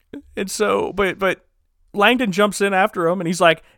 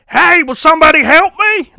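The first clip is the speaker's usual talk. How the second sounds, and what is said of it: Imitates another person's voice. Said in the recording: “That's my best Tom Hanks impersonation. I know it's not good.”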